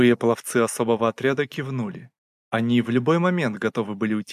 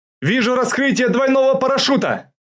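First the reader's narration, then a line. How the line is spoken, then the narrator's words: Shouting in unison. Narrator (Russian): закричали почти одновременно наблюдатели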